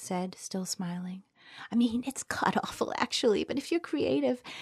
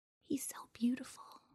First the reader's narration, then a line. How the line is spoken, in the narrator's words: Celeste whispered